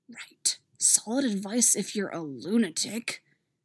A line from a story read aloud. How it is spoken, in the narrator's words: Stiles hisses